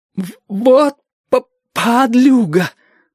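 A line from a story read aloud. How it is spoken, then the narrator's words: Stammering. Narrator (Russian): начал заикаться Чича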